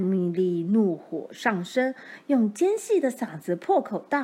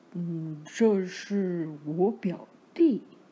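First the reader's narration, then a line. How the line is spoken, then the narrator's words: Timid low reply. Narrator (Chinese): 老瓦利怯生生的低声回答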